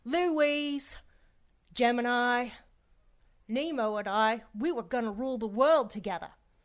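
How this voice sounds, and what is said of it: Cockney accent. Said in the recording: “there's your real accent. Cockney, I'd wager.”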